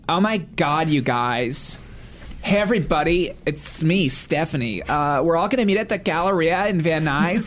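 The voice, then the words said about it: Put-on Valley Girl accent. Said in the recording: “It's an accent thing. Do a Valley Girl accent.”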